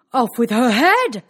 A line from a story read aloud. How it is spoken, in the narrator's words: the prince roared back